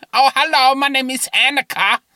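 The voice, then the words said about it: Exaggerated German accent impression. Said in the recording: “a very, very, very slight German accent because her family's German. So whenever I do an impression of Annika, I've taken to doing it like this. ... She doesn't speak like that at all.”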